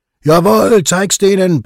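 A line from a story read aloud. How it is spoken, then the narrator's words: Friends roaring. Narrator (German): brüllen die Freunde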